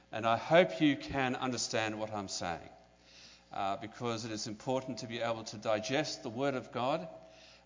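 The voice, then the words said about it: Very strong foreign accent. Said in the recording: “I have a very strong accent ... My accent, I understand, is strong”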